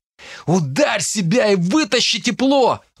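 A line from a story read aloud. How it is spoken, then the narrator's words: Shouting. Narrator (Russian): выкрикнул Дарт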